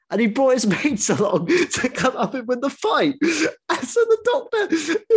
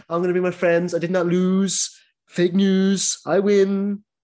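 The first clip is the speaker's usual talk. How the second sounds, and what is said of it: Donald Trump impression. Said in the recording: “my Donald Trump impression”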